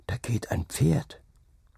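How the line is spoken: Boy whispering. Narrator (German): flüsterte der Junge

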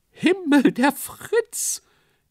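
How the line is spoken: Shrieking. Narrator (German): kreischte jemand auf der Bühne

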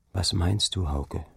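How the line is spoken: Quiet question. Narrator (German): frug leise

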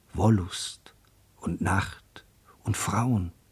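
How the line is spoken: Whispering. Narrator (German): flüsterte in die lautlose Nacht

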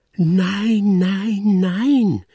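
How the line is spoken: Sudden irritated shout. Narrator (German): schrie die Tante plötzlich unwillig

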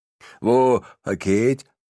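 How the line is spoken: Slurred. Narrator (German): lallt er

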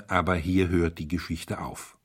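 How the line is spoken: Firm voice. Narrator (German): sagte der Priester mit fester Stimme

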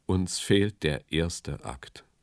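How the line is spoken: Sighing. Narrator (German): seufzte er

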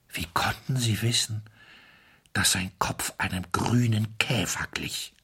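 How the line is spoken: Weak-voiced question. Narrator (German): fragte mit schwacher Stimme

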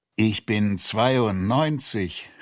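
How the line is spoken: Groaning. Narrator (German): stöhnte er

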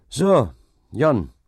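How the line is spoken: Called out. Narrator (German): rief dieser

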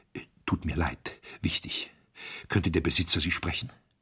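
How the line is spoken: Whispering in ear. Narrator (German): flüsterte ihm ins Ohr

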